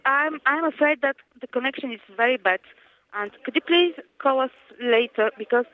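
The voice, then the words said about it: French accent. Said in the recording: “You sound French.”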